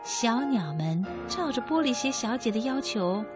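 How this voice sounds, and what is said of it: Usual voice. Nothing is said of it.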